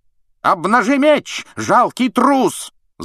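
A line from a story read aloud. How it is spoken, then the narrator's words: Yelled. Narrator (Russian): заорал на него сэр Кэдоган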